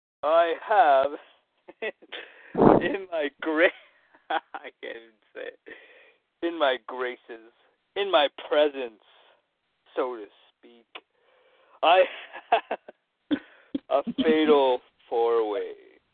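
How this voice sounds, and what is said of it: Wrestling villain character voice. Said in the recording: “it's in my heel voice”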